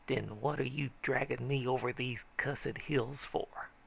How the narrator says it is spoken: He snorted skeptically and said sarcastic

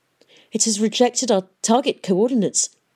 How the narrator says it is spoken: gasped Dr

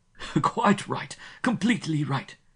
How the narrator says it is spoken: Van Juist said, his laughter loud and edged with weasel fur

